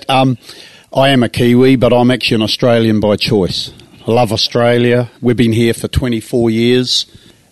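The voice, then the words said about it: Slight New Zealand accent. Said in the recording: “You got a bit of a Kiwi accent there.”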